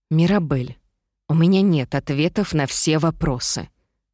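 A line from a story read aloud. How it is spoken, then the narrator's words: Forced calm. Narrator (Russian): как можно более спокойно произнесла я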